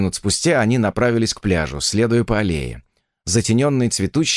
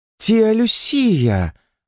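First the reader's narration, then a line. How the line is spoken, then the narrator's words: Exclamation. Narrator (Russian): воскликнула Натали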